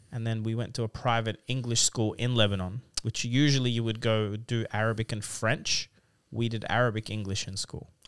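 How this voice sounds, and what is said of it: Native Australian English accent. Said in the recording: “such a good command and such a native Australian accent”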